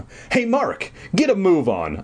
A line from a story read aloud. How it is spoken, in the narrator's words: I cried